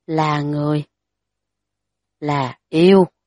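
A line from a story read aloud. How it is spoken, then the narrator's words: Whispered muttering. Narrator (Vietnamese): đối phương thì thào lẩm bẩm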